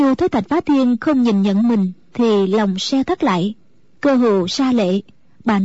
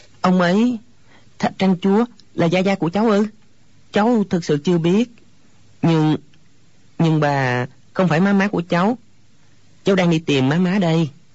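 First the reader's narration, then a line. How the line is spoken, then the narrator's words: Hesitant stammering. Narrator (Vietnamese): Hồi lâu chàng mới ấp úng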